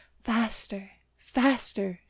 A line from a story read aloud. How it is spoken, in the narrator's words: she cried